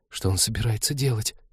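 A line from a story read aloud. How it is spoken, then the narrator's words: Disbelieving whisper. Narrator (Russian): прошептала Полина, зная ответ, но будучи не в силах в него поверить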